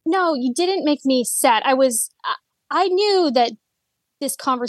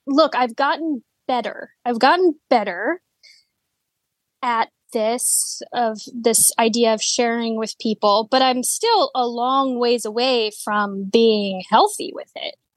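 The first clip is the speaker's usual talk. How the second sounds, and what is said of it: Speech slows down, subdued. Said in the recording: “Why did my voice change? ... You got real slow”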